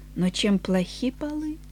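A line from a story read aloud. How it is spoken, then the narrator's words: Quiet reply. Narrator (Russian): Эленор тихо ответила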